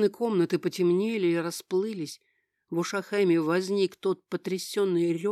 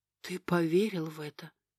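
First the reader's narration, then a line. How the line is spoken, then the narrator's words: Female whisper. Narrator (Russian): прошептала она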